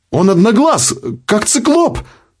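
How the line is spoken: Signalman exclaiming. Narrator (Russian): воскликнул связист

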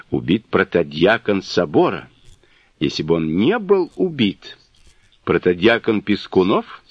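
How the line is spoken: Plain. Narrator (Russian): спросил Липунов

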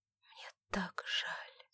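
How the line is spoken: Helpless whisper. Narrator (Russian): в бессилии прошептала Александра

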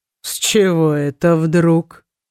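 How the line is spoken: Mocking question. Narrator (Russian): насмешливо спросил принц

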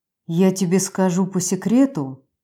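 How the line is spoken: Near whisper. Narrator (Russian): почти прошептал Вайнер

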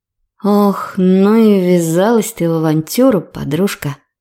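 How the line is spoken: Sighing, spoken aloud. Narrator (Russian): Вздохнув, вслух произнесла Лорен

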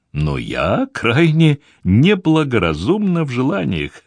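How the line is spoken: Laughing. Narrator (Russian): рассмеялась Гвендолин

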